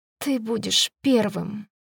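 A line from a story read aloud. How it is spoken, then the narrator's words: Tearful whisper. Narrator (Russian): прошептала сквозь слезы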